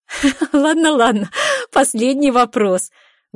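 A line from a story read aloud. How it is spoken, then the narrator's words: Breathless through laughter. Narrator (Russian): Выдыхаю я сквозь смех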